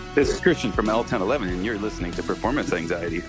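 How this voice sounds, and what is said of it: Polished radio announcer voice. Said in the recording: “that was a great radio voice”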